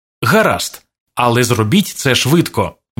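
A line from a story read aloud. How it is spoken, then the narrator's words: Plain. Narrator (Ukrainian): відповів грабіжник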